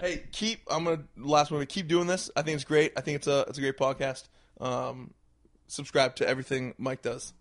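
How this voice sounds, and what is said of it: Voice not back to normal. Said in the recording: “Hopefully my voice is back next week and I'm back to just annoying you with my great voice”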